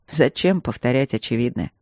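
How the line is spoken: Mocking snort. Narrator (Russian): фыркнул он, широко, насмешливо улыбнулся

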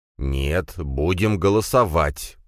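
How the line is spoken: Speaking through teeth. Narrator (Russian): процедил брат Драгунова

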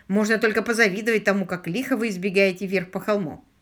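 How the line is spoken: Sighing pensioner. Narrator (Russian): вздохнул один из пенсионеров

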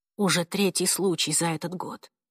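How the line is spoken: Mutter. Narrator (Russian): пробормотала

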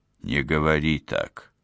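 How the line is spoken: Soft speech. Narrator (Russian): мягко произнес Уго

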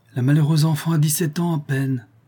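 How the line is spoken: Count exclaiming, deeply moved. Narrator (French): s'écria le comte profondément attendri

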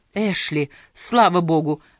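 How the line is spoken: Excited exclamation. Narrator (Russian): вскричал, взволнованно сэр Чарльз

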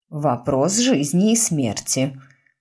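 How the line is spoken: Mutter. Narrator (Russian): пробормотала миссис Пруст

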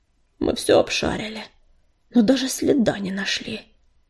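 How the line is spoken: Tired father. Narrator (Russian): устало говорил отец

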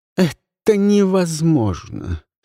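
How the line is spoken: Despairing moan. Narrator (Russian): простонала Ивон

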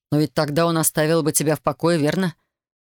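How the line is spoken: Gloomy. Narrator (Russian): мрачно произнес Александр

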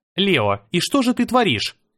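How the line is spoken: Indignant. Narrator (Russian): начала Мира возмущенно

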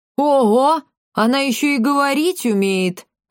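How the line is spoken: Old woman laughing. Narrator (Russian): расхохоталась старушка

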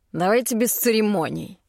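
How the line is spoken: Dragon's growl. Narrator (Russian): рыкнул дракон

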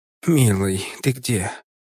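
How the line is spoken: Tender. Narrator (Russian): Нежно говорила

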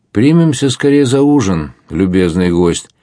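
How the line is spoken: Cheerful. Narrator (Russian): весело сказал отшельник

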